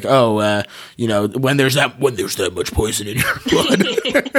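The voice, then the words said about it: Impression of a movie character. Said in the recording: “That's a pretty good impression.”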